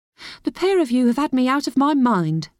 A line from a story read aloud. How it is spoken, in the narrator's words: she cried